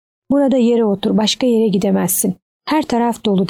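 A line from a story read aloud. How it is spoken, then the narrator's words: Plain. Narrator (Turkish): dedi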